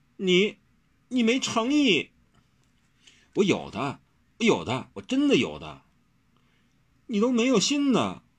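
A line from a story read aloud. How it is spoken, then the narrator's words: Heartbroken. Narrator (Chinese): 温柔伤心欲绝地说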